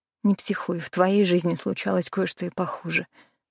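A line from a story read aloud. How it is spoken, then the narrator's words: Muttering to herself. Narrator (Russian): бормотала я себе под нос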